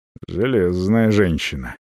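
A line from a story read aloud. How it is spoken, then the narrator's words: Muttering with unclear emotion. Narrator (Russian): с непонятными эмоциями бормочет европеец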